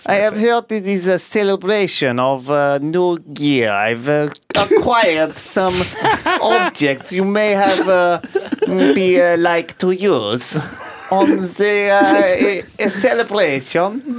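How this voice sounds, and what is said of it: Put-on Russian accent. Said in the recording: “I know you're itching to do your accent.”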